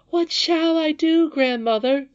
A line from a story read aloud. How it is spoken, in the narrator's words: sobbed the princess, shaking with suppressed sobs